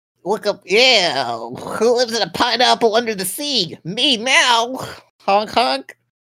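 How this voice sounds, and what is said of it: Bad cartoon snail character voice. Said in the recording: “Worst Bubsy impression I've ever heard.”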